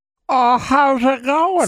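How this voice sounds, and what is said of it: Old man voice. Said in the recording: “my old man impression... It's awful... it's a good old man impression”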